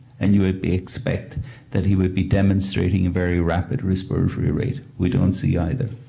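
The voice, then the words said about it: Speaks with a noticeable accent. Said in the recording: “I'm taken by your accent.”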